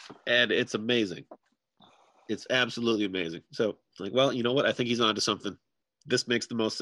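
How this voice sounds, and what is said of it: Usual voice. Nothing is said of it.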